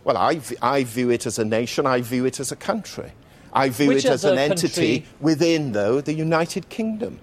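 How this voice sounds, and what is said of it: Welsh accent. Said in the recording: “This is a Welshman, obviously, I could tell by the accent.”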